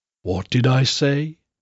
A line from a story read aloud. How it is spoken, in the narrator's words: He muttered